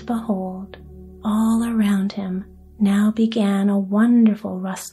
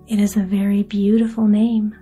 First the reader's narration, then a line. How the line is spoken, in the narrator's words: said Welf